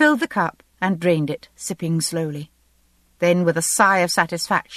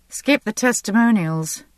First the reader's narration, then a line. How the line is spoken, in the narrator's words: I said dryly